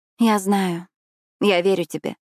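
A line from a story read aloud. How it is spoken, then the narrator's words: Soft. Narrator (Russian): мягко сказала я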